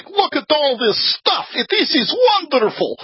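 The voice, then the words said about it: Imitation of Boris Yeltsin. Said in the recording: “probably not a very good Yeltsin impersonation”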